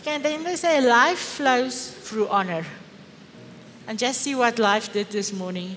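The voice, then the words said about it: Afrikaans accent. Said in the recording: “that Afrikaans accent ... Sorry, guys, for my accent.”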